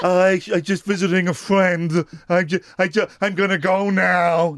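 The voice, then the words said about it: Imitates another person's voice. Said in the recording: “That's such a good impersonation.”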